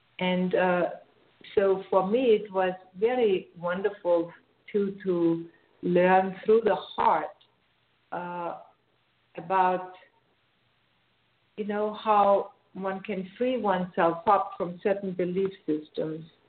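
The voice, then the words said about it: Austrian accent. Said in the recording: “as you might hear from my accent. I'm Austrian. I come from Austria”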